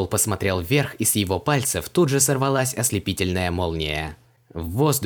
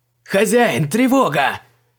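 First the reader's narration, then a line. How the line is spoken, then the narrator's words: Yelling alarm. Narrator (Russian): заорал Артот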